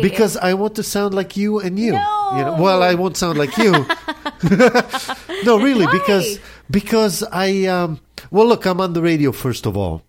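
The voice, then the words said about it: Israeli-accented English. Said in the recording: “where are you from? ... I'm from Israel ... my first desire when I came to this country when I was 16 is to lose the accent ... Obviously, it hasn't worked all this time”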